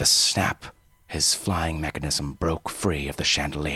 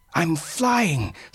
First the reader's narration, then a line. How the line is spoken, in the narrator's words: Sparrow cried as he hurtled across the room